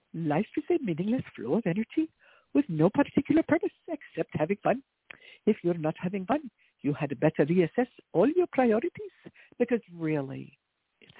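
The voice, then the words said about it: Put-on Indian accent. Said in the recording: “in my best Indian accent”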